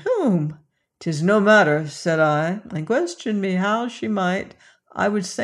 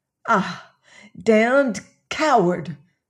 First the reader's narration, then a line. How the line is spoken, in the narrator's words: she cried